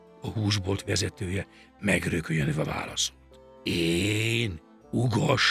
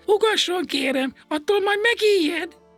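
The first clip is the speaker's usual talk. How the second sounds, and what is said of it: Thin-voiced character calling out. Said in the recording (Hungarian): “Vékony hangon átkiáltott”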